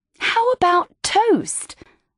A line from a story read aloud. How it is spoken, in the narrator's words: I pleaded as a compromise